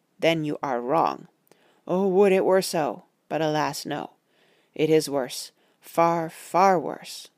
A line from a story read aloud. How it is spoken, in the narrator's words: said solemnly